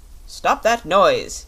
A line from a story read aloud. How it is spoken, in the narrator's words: he shouted